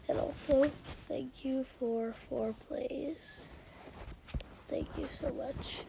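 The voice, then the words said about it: Cracking, sick-sounding voice. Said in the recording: “Sounds like my voice is cracking. It's not puberty... I'm really sick”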